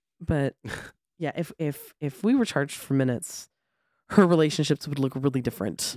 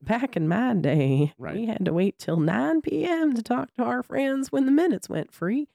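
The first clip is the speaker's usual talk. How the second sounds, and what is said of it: Put-on Southern old lady voice. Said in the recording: “my old lady always has a Southern accent ... Because it's the funniest version of it.”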